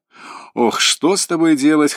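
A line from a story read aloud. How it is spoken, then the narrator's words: Chuckling. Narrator (Russian): хохотнул Сергеев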